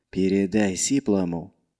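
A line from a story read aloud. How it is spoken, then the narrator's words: Quiet. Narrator (Russian): тихо сказал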